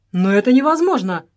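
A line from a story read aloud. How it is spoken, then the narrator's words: Exclaimed. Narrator (Russian): воскликнул Джордж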